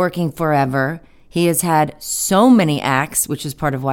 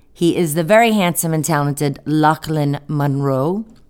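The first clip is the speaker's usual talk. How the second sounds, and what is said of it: Poor attempt at Scottish accent. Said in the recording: “I tried to say that with a Scottish accent ... No, that was terrible.”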